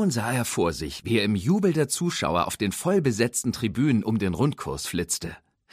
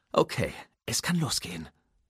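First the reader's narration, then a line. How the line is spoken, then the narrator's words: Murmured. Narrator (German): murmelte er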